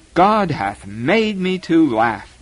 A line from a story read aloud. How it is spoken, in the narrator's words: cried